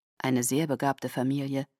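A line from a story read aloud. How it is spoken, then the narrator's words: Murmur. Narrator (German): murmelte Eleazar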